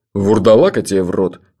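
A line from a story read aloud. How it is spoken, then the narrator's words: Grumbled. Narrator (Russian): проворчал Джуфин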